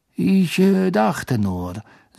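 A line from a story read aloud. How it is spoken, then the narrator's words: Forced calm voice. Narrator (German): sagte Snape mit gezwungen ruhiger Stimme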